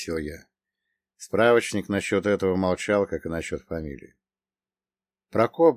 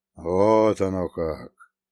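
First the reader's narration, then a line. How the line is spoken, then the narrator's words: Drawling. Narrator (Russian): протянул он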